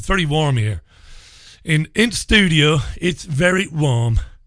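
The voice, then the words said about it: Vague put-on accent. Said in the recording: “I don't know what that was meant to be either. All my accents sound the same.”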